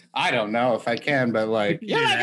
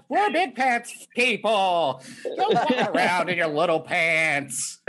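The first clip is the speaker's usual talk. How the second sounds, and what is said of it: Kevin Meaney impression, crazed yelling. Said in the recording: “You can do an impression of him ... like a crazy person ... Kevin Meaney yelling”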